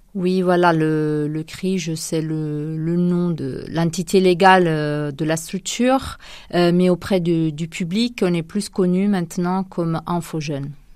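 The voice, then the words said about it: Sing-song Italian accent in French. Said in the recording (French): “vous n'avez pas l'accent du Poitou ... je viens d'Italie ... ça s'entend à l'oreille, c'est bien chantant”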